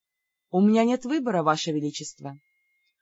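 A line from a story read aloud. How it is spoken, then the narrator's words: Melancholy sigh. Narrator (Russian): тоскливо вздохнула я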